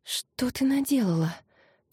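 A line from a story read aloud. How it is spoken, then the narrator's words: Whispered. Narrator (Russian): прошептала Кари Файоле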